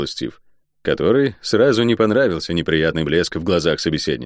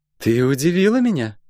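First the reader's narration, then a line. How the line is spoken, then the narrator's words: Timid snort. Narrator (Russian): робко хмыкнула Метифа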